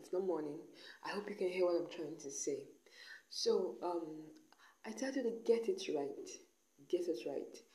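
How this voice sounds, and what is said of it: Croaky, unclear voice. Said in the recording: “Forgive my croaky voice, because I get to do this in the middle of the night ... my voice isn't that clear enough”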